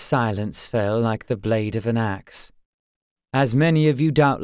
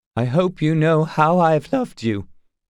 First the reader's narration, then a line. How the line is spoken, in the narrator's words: he added, his voice breaking